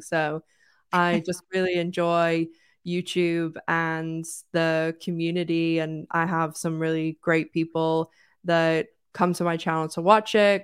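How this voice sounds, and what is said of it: Mixed British, American, Irish accent. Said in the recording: “Where is she from? What is going on with that accent? Because it's so weird. But yeah, I'm British, American, Irish”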